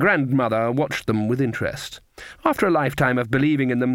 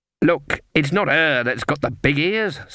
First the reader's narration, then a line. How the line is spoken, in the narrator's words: snapped Fairy Daisy